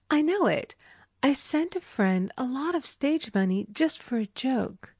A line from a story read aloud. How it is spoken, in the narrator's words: She thought a few moments and exclaimed